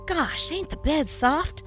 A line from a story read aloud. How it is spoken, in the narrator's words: Jim sighed